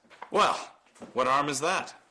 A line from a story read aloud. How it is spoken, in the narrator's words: He shook his constraint from him nervously